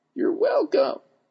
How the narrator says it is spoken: I squeaked

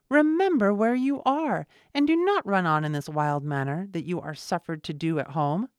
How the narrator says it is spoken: cried her mother

